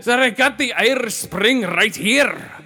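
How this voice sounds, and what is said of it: Bad put-on Irish accent. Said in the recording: “a horrible Irish accent”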